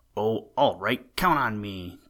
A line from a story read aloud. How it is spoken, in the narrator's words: cried Nick